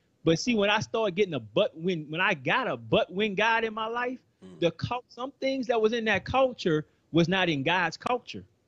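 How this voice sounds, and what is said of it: New Orleans accent. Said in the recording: “I'm originally from New Orleans ... I think I'm losing my accent a little bit after being in Texas. ... No, you're not.”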